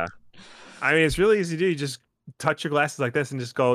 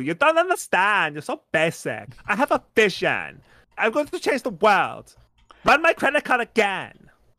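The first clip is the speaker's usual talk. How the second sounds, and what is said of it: Weird-voiced Anna Delvey impression. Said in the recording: “doing an impression of the character from an Anna Delvey because she's got this really weird voice”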